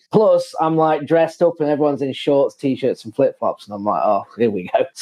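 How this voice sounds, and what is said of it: English accent. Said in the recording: “obviously from England, already stand out, like, obviously from the accent, massively”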